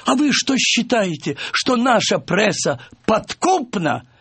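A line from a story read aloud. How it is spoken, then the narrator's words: Mocking laughter. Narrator (Russian): надо мной захохотала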